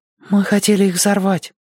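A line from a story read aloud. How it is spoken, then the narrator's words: Breathed out. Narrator (Russian): выдохнул Зорка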